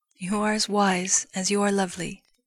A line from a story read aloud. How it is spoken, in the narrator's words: Ho-Yi said